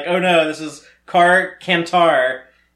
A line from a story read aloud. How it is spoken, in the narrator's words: not sarcastically